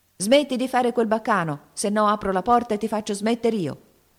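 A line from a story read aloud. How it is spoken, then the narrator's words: Young man's threatening shout. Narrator (Italian): urlò il signorino in tono di minaccia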